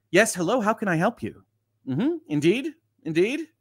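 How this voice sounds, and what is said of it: Customer service voice. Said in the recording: “customer service voice activate ... It's a retail voice.”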